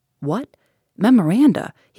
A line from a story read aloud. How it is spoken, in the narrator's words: he exclaimed